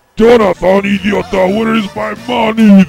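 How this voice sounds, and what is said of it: Comic character voice. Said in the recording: “This is Mexican Jabba.”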